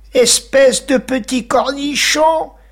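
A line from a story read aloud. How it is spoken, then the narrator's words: Yelling. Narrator (French): hurla-t-il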